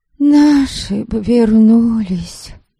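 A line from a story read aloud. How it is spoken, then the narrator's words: Young woman sighing. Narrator (Russian): Вздохнула еще одна молодка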